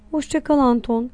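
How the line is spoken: Low voice. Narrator (Turkish): dedi alçak sesle

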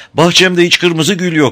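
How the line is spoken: Tearful shout. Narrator (Turkish): diye bağırdı öğrenci ve güzel gözleri yaşlarla doldu

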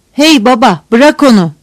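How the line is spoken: Shouting. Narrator (Turkish): diye bağırdı

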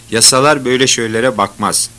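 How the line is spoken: Plain. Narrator (Turkish): dedi

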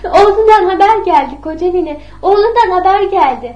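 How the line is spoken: Shouting. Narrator (Turkish): diye bağırdı

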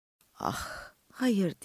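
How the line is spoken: Whisper. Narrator (Turkish): diye fısıldadım

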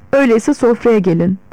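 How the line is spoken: Plain. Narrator (Turkish): dedi

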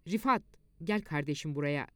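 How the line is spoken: Sergeant, confident voice. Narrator (Turkish): Çavuş kendine güvenir bir sesle

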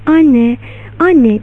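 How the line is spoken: Crying out. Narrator (Turkish): diye haykırdı

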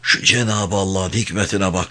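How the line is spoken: Murmuring again. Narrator (Turkish): diye yeniden mırıldandı Emin emmi

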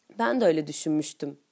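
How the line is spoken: Cold voice. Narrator (Turkish): diyorum soğuk bir sesle

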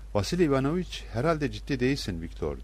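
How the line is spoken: Plain. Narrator (Turkish): dedi

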